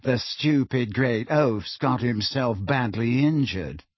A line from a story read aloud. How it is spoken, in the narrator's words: said Malfoy in an undertone, so that only Harry could hear him